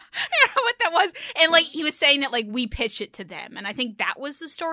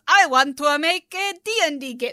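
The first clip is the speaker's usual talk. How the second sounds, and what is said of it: Terrible put-on accent. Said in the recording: “That's a terrible accent.”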